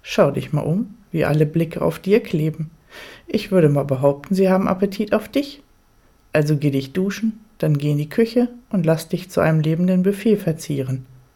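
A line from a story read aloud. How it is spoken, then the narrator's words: Answering with a laugh. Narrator (German): seine Lippen zu einem Lachen verziehen und er antwortet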